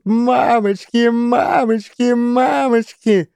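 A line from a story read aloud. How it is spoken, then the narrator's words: Squeaky monotone shriek. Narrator (Russian): пискляво завизжал на одной ноте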